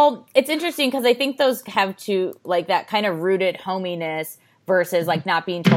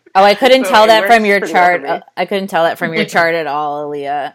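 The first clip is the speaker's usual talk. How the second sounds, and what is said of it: Sarcastic delivery. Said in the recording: “Are you being sarcastic? ... I'm being sarcastic.”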